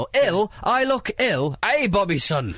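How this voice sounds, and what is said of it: Put-on Scottish accent. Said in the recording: “Is that your Scottish accent? ... He's back again.”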